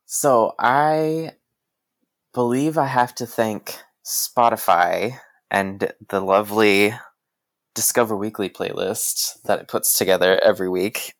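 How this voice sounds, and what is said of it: American accent. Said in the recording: “if people couldn't tell by your accent, you're American”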